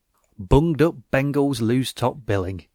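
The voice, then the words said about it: Put-on northern accent. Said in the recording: “I don't know why I did a northern accent for that.”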